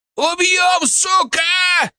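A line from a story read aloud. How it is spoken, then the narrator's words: Yelling goat. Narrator (Russian): заорал козел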